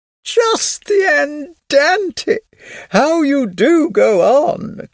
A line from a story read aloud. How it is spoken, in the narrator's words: cried his wife